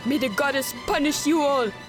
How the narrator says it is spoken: Chappelle cried out

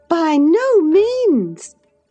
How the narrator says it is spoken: cried Mrs

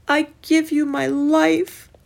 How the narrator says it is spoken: Jesus cried

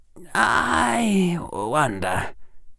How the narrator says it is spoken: Harry said softly

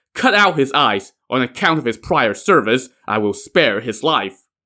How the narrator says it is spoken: barked

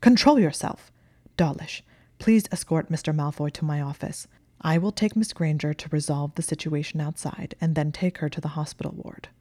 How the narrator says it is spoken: McGonagall snapped

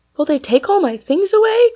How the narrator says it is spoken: cried Maud in dismay

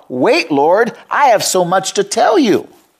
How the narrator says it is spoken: she cried, Letta cried out

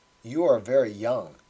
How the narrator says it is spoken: he said

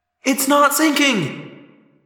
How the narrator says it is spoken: Cassie cried

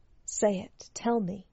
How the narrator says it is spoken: He whispered in her ear

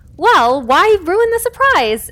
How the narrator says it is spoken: Evelyn exclaimed with delight

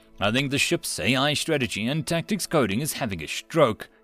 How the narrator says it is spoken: Yamamoto chuckled

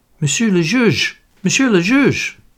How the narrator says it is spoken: stammered the attendant

